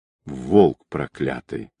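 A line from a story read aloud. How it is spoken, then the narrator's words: Angry whisper. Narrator (Russian): зло прошептал Ермаков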